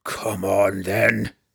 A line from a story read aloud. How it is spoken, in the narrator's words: Brunner roared at them both